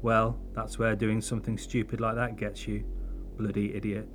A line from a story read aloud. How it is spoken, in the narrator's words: Harry muttered